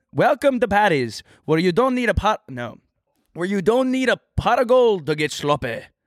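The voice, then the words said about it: Put-on Irish accent. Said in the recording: “my Irish accent ... I can do it. I can do it.”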